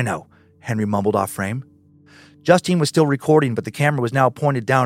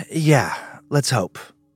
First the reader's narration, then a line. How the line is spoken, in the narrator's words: Justine sighed